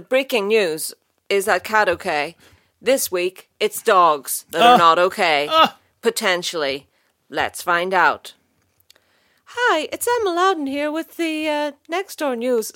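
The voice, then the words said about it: Raised, higher-pitched newsreader voice. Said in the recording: “Why did your already high voice get higher?”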